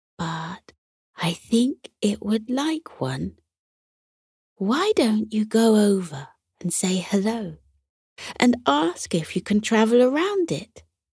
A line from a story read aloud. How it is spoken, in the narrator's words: She said softly